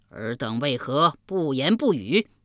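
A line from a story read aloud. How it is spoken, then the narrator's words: Asking repeatedly. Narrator (Chinese): 连问3遍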